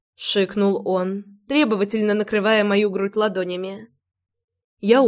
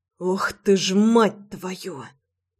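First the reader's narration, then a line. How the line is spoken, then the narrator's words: Hiss. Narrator (Russian): прошипел Рома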